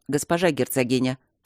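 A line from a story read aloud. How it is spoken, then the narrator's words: Respectful but sharp. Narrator (Russian): почтительно и резко говорил мне Осокин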